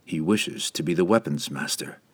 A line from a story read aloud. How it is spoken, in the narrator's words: Driz reasoned calmly